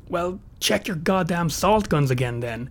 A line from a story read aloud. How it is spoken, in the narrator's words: Ben all but snarled